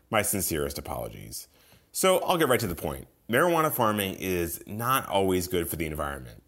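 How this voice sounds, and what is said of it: Sick, under-the-weather voice. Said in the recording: “as you might be able to tell from my voice, I'm a little under the weather today”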